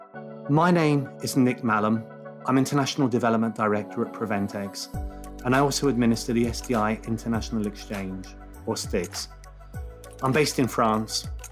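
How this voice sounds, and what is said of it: British accent. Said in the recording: “as you can probably tell by my accent, I'm a British national.”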